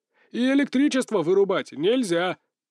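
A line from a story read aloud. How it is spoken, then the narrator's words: Barked shout. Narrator (Russian): Су Дунмин гаркнул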